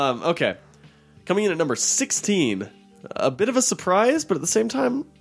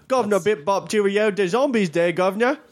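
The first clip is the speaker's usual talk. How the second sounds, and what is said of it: Mock British accent. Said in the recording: “my accent was so impeccable... All the British people are laughing real hard right now.”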